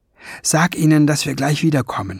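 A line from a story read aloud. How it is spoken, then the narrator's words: Whispered. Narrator (German): flüsterte Ben Fliegenbein zu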